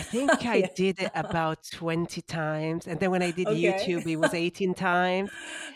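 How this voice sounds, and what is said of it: Non-native English accent. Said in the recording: “I didn't like my accent... embrace your accent”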